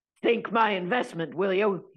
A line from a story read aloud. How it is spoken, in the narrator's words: He shouted